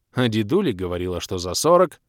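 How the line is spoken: Snorted. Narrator (Russian): фыркнула беда

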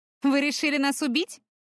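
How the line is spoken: Wry snort. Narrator (Russian): хмыкнула Таяна

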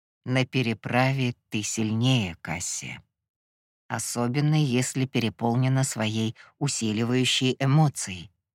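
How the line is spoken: Gentle reminder. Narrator (Russian): мягко напомнил Гипнос

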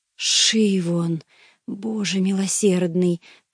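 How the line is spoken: Hoarse wheeze. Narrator (Russian): просипел я

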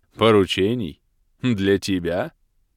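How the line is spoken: Archmage's question, short laugh. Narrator (Russian): переспросил архимаг и коротко рассмеялся

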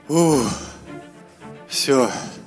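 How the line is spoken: Resigned sigh. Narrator (Russian): Обреченно выдохнул Элендил

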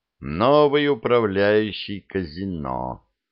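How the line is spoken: Gloomy. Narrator (Russian): мрачно сказал Шут

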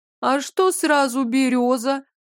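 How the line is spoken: Girlish giggle. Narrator (Russian): Доля хихикнула, совсем как девчонка с простого двора Полозовичей

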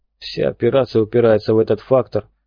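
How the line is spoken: Grumbled. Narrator (Russian): пробурчал он

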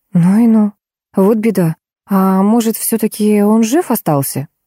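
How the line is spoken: Sighing. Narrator (Russian): Варвара Михайловна вздохнула

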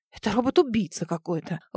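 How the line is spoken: Breathless exhale. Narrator (Russian): Выдохнула я

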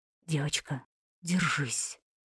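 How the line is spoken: Whisper. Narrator (Russian): послышался шепот Шарифа

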